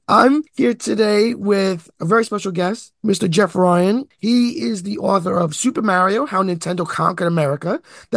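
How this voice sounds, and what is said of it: Hoarse voice. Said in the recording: “my voice is a little bit hoarse. I was sick this week ... my voice is still missing ... It sounds sexy.”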